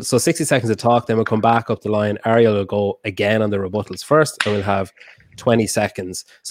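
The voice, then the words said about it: Strong accent, hard for non-natives. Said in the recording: “I'm sorry about my accent... when are you going to learn to talk properly so people that aren't native speakers can understand you?”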